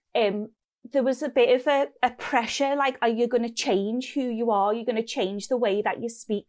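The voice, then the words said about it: Scouse Liverpool accent. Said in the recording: “I am the Scouse scientist ... not that many people down there did sound like me ... not change my accent”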